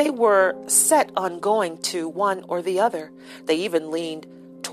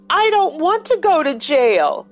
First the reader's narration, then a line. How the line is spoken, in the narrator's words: Abruptly, Joey wailed